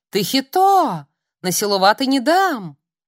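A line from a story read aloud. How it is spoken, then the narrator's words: Old woman shouting. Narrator (Russian): бабуля закричала знакомая всем членам семьи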